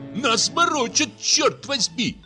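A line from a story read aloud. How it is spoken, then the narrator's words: Shouting. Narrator (Russian): закричал Дюковский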